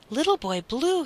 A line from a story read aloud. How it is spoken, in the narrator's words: he cried